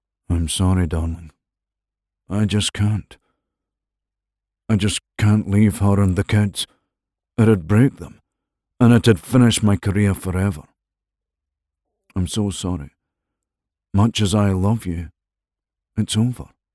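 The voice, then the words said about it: Simpering, sympathetic voice. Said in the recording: “His voice was simpering and sympathetic”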